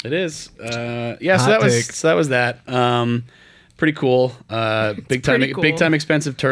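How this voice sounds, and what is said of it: Usual voice. Nothing is said of it.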